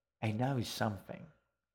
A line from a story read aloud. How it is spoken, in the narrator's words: Edgar said quietly